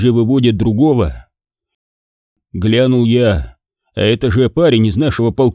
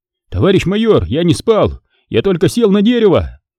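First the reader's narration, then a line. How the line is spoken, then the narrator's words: Shout. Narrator (Russian): Тот успел крикнуть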